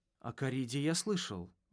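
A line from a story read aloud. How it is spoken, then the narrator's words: Strained, forced words. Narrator (Russian): выдавил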